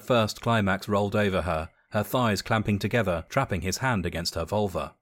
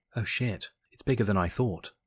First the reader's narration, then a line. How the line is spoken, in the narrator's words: Jess whispered to herself